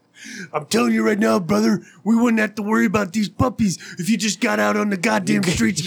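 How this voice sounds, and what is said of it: Macho Man Randy Savage impression. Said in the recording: “your best Randy Macho Man impression”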